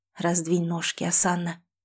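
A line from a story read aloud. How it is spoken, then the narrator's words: Hoarse command. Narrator (Russian): хриплым голосом велел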